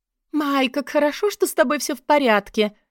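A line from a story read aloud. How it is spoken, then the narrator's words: Breathy exclamation. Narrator (Russian): воскликнула она с придыханием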